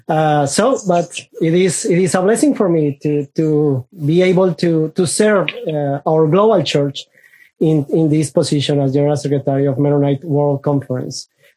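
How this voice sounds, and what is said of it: Spanish-speaker's accent in English. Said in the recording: “because of my accent, I am originally from a Spanish-speaking country, which means I am still struggling with some pronunciation”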